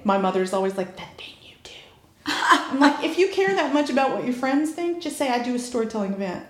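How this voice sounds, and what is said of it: Mixed Southern American accent. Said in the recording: “I grew up in the Blue Ridge Mountains of Virginia, and then I moved to Atlanta when I was 18. ... So I've got a mixed accent.”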